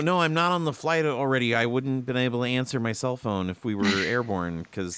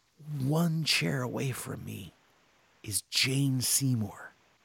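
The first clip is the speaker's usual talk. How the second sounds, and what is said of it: Whispering. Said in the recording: “I gotta whisper this because I don't want her to hear”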